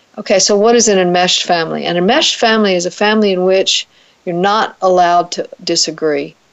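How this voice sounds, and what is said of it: Southern US accent. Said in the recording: “In case you can't tell from my accent, I live in the South.”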